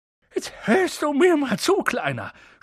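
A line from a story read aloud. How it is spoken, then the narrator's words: Gruff snapping. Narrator (German): schnauzte er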